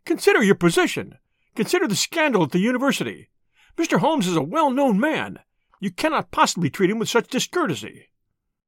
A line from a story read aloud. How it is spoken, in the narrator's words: he cried